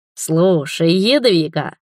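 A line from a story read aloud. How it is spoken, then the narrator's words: Sudden drawl. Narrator (Russian): внезапно протянул Мурис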